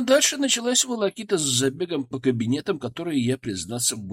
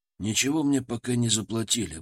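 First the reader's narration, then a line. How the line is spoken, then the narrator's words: Grumbled. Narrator (Russian): буркнул я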